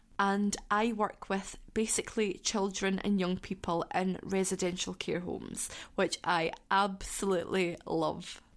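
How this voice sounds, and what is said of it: Scottish accent. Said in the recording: “If you guys haven't worked out the accent, I am from Scotland.”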